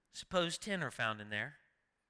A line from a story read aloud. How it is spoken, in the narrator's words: he answered